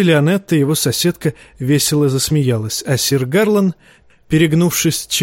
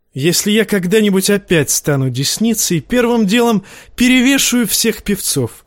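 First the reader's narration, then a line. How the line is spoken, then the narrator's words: Too loud. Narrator (Russian): слишком громко сказал Тирион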